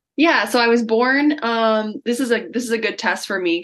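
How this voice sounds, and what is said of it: North American accent. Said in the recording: “people will automatically hear that North American accent.”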